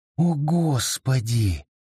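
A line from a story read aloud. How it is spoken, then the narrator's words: Whisper. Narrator (Russian): прошептала Хелен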